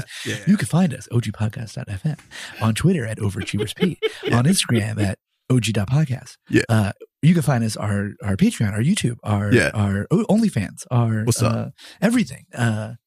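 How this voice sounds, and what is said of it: Lowered radio announcer voice. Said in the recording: “like, kind of dips a little bit. Like, he gets a little radio voice.”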